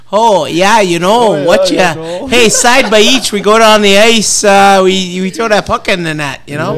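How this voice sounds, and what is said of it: Exaggerated Yooper Canadian-style accent. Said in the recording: “you go straight Canadian and Uper ... You got two Upers here on the podcast. We have no accent.”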